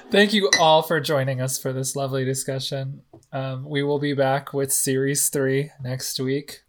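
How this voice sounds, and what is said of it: Hoarse, worn-out voice. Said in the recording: “My voice is obviously shot.”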